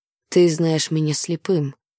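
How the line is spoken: Quiet reply. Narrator (Russian): тихо отозвался Ной

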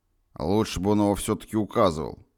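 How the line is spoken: Gloomy grumble. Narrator (Russian): хмуро проворчал я

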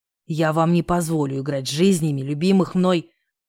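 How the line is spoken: Growled. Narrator (Russian): прорычал я, пытаясь вырваться из захвата Гришкиных лап

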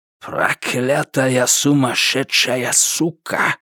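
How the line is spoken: Hissed. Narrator (Russian): Кайрат прошипел

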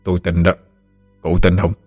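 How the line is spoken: Deep, gruff voice. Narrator (Vietnamese): Ông ầm cất giọng ồm ồm

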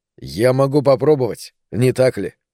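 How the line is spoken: Plain question. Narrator (Russian): спросил я

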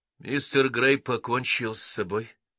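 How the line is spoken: Sighing. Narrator (Russian): вздохнув, ответил Артур Маннинг

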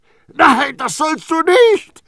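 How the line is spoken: Horrified scream. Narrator (German): schrie entsetzt

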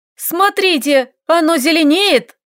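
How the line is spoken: Loud shout. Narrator (Russian): крикнул кто-то из эльфов

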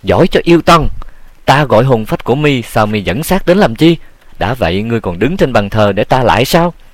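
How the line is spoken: Furious loud shout. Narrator (Vietnamese): giận dữ thét to

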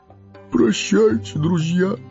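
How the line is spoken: Sobbing. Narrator (Russian): всхлипнул он

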